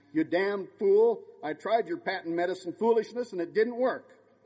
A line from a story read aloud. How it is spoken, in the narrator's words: My old English grandmother, without dropping a stitch, snapped